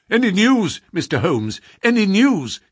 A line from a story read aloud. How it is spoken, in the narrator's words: cried